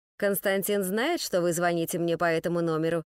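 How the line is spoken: Cold, curt question. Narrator (Russian): спросил он холодно, желая отделаться от звонившей как можно скорее

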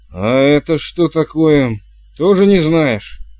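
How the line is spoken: Barked. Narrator (Russian): рявкнула матушка

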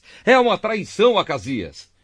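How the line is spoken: Shouting while fleeing. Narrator (Portuguese): fugiu, gritando para Acasias

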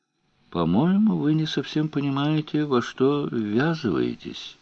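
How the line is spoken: Quiet. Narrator (Russian): тихо сказал

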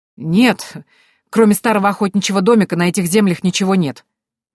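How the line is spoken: Exclaimed. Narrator (Russian): воскликнул Карлайл

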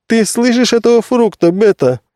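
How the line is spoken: Laughing old man. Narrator (Russian): рассмеялся старец

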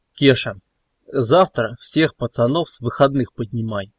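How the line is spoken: Cold command. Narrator (Russian): холодно приказал Велес

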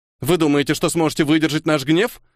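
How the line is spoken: Loud, losing confidence. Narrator (Russian): громко спросил Иутл, но из его голоса исчезла былая уверенность

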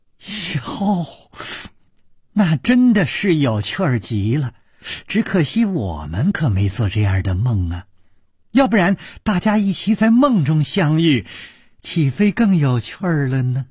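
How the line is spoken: Said laughing. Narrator (Chinese): 柳无眉笑着说

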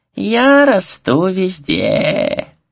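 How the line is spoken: Unpleasant rattling singsong. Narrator (Russian): пропел дух неприятным дребезжащим голосом

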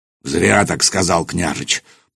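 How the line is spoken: Deep bass voice. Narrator (Russian): пробасил Нурман

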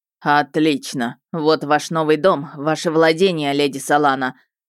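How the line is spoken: Displeased snort. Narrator (Russian): сказал дракон, недовольно фыркнув

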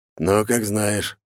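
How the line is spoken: Gruff wolf's grunt. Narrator (Russian): волк буркнул

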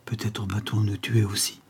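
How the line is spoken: Whispered reply. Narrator (French): répondit tout bas le plus jeune

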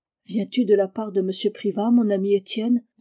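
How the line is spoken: Affectionate. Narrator (French): demanda Olympe d'un ton affectueux

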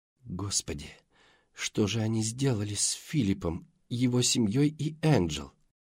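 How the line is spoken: Muttering. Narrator (Russian): пробормотала она

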